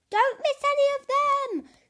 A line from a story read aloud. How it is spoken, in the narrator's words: yelled Madame Couscous